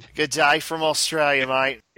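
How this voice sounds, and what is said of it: Put-on Australian accent. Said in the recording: “where's the accent? ... Let me get out of that accent.”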